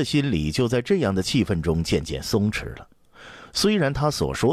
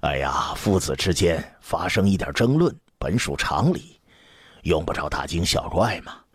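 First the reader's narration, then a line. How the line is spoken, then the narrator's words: Knowing, worldly smile. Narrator (Chinese): 江冲微微一笑，继续创造着宽松的氛围，老于世故的一笑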